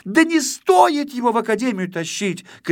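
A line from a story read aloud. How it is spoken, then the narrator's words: Little girl shouting. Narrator (Russian): кричала малышка-модница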